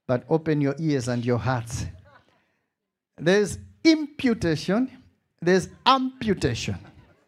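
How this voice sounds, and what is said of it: Malawian accent. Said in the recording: “I know I've got my Malawian beautiful accent”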